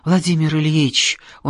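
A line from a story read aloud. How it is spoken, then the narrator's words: Mumbling. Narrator (Russian): он бормочет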